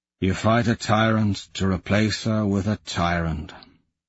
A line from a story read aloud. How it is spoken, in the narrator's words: he says wearily